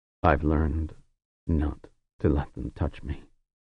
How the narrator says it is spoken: he said in a low voice

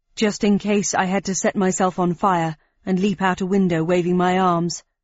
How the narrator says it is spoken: replied Fallon, wistfully

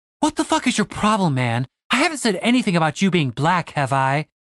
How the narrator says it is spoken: She gasped

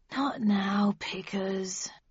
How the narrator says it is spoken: I mumbled sleepily

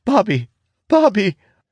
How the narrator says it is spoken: The girl wails, saying the words

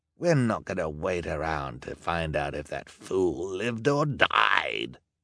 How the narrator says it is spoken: Olaf snarled

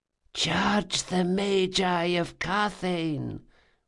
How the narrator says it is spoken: whispered the circle

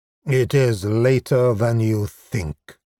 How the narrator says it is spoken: he said grimly

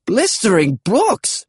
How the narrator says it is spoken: the old man exclaimed

